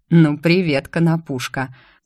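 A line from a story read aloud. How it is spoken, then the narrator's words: Amused snort. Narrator (Russian): хмыкнул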